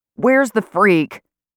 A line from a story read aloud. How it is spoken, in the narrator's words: He yells